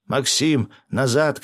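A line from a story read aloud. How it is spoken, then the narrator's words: Shout. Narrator (Russian): крикнул я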